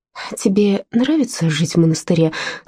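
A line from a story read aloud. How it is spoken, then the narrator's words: Timid question. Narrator (Russian): спросила робко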